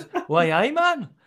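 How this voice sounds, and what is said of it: Poor attempt at Geordie accent. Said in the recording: “the worst Geordie accent ever ... No, I just can't do it.”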